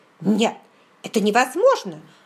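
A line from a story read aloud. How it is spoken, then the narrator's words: Disappointed exclamation, little man. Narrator (Russian): воскликнул уже окончательно разочарованный человечек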